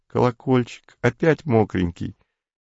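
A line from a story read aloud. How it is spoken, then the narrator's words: Gentle female voice. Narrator (Russian): ласковым женским голосом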